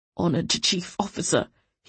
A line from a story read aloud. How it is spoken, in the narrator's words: he croaked